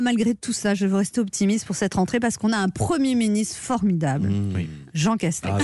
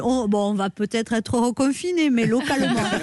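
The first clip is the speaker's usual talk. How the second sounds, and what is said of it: Southern French accent imitating Jean Castex. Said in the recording (French): “tout passe mieux avec l'accent du midi ... avec l'accent”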